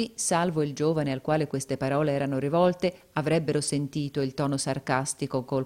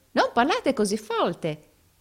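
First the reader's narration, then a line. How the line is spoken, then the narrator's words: Rehearsed exclamation. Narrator (Italian): esclamò l'altro recitando la lezione a perfezione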